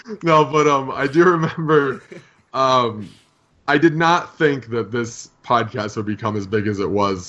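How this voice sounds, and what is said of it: Odd voice that sounds near tears. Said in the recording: “my voice is funny because my device is going off from the surgery. I'm not sad. I'm not about to cry”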